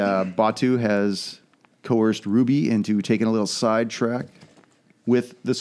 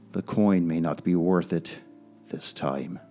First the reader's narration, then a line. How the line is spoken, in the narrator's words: he mutters to himself softly